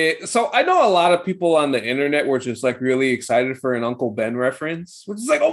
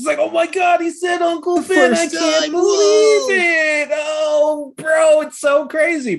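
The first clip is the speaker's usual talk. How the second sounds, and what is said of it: Mock excited internet fan voice. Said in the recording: “that was a good impression of the internet.”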